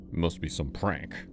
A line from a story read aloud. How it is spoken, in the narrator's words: he muttered